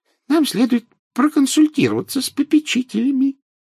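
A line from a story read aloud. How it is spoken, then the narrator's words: Squeaky professor. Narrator (Russian): пропищал профессор Флитвик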